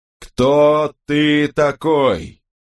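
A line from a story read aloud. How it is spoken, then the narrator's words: Slow, deliberate condescending shout. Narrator (Russian): Сэр Джон с расстановкой произнося слова, словно он обращался к глухому ребенку или идиоту, прокричал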